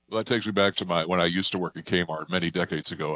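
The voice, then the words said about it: Deep radio voice. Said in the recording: “He's got that deep radio voice.”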